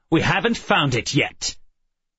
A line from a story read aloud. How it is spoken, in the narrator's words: His voice sharp, brittle